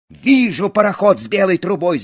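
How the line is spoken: Shout. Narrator (Russian): закричал Буртик

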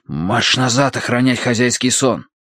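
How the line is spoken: Hissing. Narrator (Russian): прошипел я

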